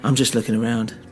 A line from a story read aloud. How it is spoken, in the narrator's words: I said